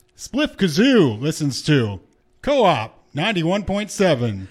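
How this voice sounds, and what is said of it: Showman announcer voice. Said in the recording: “I did a special voice ... That's your showman voice.”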